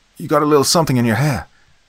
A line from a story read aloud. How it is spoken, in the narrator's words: Jordan yelled